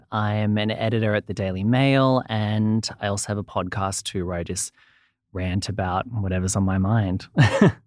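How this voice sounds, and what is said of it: Australian accent. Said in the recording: “I'm from Australia, as you can probably hear from the accent.”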